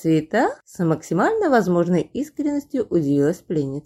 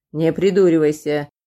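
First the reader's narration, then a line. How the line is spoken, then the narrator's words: Irritated. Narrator (Russian): раздраженно дернул щекой байбак переросток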